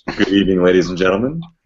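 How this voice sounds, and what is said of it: Soothing radio announcer voice. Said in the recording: “There, there's the soothing radio voice.”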